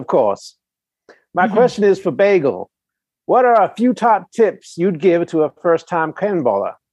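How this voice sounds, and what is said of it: Southern plantation-owner style accent. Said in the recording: “that's not a bad accent if you are representing a plantation owner”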